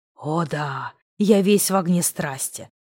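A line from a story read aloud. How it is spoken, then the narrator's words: Growling. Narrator (Russian): прорычал я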